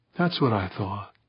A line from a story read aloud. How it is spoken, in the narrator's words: Pauline said, her voice gentle, far from accusative